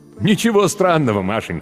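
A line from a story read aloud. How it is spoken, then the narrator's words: Laughing. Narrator (Russian): смеялся Земляникин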